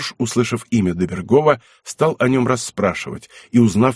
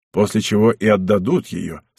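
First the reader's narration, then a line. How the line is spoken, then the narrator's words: Plain. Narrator (Russian): сказал князь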